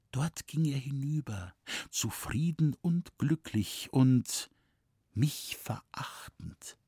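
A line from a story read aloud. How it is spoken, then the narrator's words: Soft whisper. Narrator (German): flüsterte sie leise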